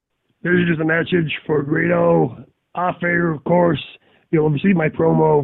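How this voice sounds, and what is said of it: Imitates another person's voice. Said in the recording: “Very good impression, by the way. Very good impression.”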